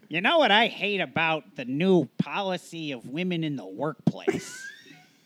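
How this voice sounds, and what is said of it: Imitates another person's voice. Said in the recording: “I don't even know if that's what Andy Rooney sounds like, but in my head, that's what he sounds like ... I wouldn't say it's the worst Andy Rooney impression I've ever heard, but it's better than one that I could do.”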